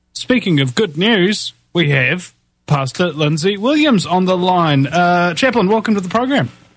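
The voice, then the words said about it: New Zealand or Australian accent. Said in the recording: “south of the equator brogue accent you have down there in New Zealand and Australia”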